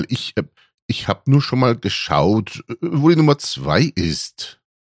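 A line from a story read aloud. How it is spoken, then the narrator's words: Quick stammer. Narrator (German): stotterte er schnell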